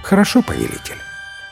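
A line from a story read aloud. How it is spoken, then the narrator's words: Calm young man. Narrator (Russian): Юноша спокойно сказал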